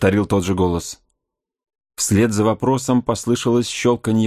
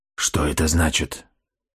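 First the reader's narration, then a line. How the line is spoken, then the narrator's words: Whisper. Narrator (Russian): прошептал Соколиный глаз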